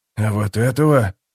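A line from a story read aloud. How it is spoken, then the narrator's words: Shocked mutter, old man. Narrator (Russian): потрясенно пробормотал старик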